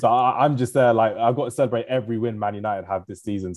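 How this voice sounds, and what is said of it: Voice sounds really bad. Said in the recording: “my voice is really bad because I was celebrating”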